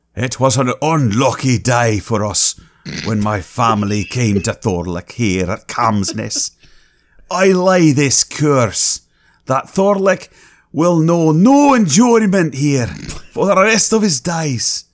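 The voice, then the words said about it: Put-on Hebridean accent, getting thicker. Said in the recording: “they're Hebridean... I know how much you enjoy doing the accent... It's getting thicker as we go.”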